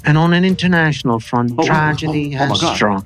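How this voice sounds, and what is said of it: Mock official British newsreader accent. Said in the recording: “shit sounds more official in a British accent”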